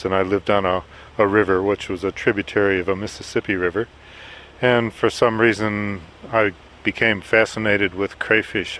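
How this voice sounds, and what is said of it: American accent. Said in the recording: “As you can tell from my accent, grew up in the United States”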